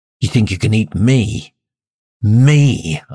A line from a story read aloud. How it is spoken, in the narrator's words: growl